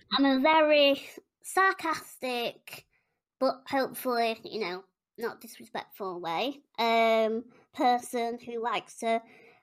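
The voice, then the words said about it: West Yorkshire English accent. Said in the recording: “I'm from West Yorkshire. Don't know if you can tell by my accent.”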